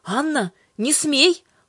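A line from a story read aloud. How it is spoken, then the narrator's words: Exclaimed. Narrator (Russian): воскликнул Иоанн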